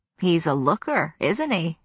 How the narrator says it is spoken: she said with a wink, her voice rustling like waxed paper

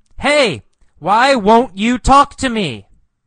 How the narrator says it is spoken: He yells

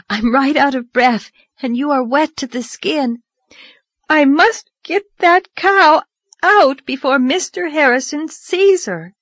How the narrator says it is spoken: gasped Anne

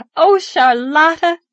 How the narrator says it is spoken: she cried gaily

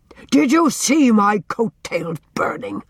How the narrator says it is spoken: he demanded angrily

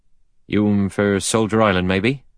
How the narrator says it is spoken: he asked in a soft Devon voice

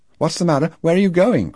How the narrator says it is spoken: cried Lo from the porch

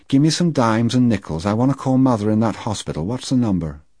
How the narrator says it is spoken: said in that neutral voice that hurt me so

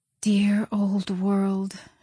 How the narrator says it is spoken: she murmured

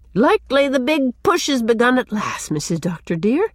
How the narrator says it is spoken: she exclaimed

